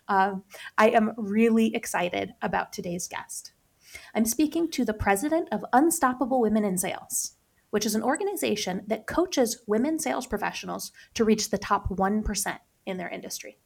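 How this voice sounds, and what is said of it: Slightly scratchy voice from a cold. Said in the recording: “as you might be able to tell by my voice today, I am on the tail end of a cold, so I'm going to sound a little bit scratchier than usual”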